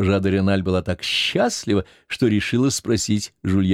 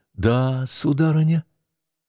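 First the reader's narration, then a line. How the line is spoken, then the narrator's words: Timid reply. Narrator (Russian): отвечал он робко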